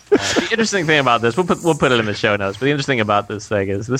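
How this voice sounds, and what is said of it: Usual voice. Nothing is said of it.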